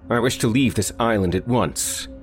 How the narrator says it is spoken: said firmly

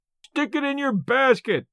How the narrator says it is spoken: yelled, in a delight that showed how hard he was pulling for the gate money

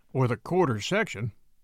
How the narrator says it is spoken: added Briggs gloomily

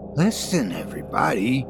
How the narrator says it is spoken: Suddenly he said in a queer voice

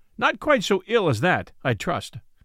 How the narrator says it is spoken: quoth Robin, laughing

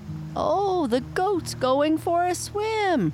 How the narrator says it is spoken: one cried

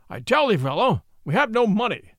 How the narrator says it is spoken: thundered the fat little friar with the great voice

